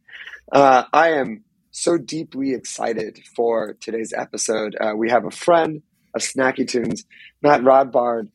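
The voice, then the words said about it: Hoarse voice. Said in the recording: “Please excuse my hoarse, non-COVID related voice this week. I was screaming into the void this weekend and it has not come back.”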